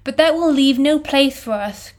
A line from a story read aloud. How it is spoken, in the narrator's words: cried Pippin in dismay